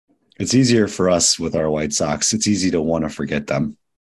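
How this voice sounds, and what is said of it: Sick, under-the-weather voice. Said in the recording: “I'm a little under the weather, as you can probably hear in my voice”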